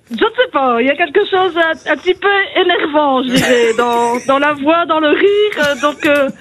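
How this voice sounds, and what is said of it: Belgian French accent. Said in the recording (French): “vous avez un accent chelou, vous aussi ... Vous avez un très bel accent belge”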